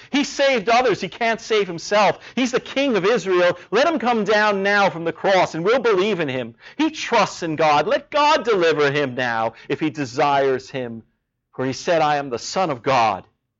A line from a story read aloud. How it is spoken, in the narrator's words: mocked him, saying